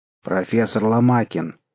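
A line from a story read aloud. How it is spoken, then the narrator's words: Stern warden. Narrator (Russian): строго сказал надзиратель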